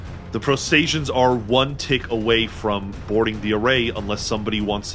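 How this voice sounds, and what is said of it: Usual voice. Nothing is said of it.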